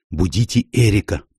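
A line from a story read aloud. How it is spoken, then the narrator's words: Whisper. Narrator (Russian): прошептала она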